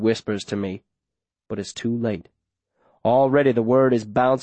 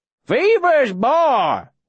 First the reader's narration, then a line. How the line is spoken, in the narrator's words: Wilf shouts back